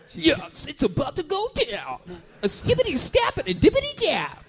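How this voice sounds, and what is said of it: Impression of an 80s rapper voice. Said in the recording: “your black guy impression? ... black guy impression sounds like every rapper from the 80s.”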